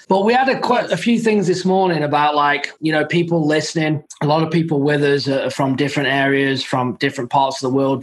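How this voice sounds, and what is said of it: Speaks with a non-native accent. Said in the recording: “I have an accent as well ... Obviously, I have an accent.”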